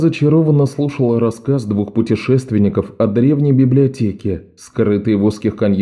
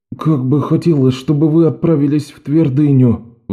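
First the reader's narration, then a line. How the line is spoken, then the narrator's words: Sighing. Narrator (Russian): вздохнул Оливер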